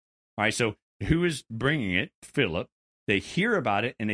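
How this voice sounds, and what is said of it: Usual voice. Nothing is said of it.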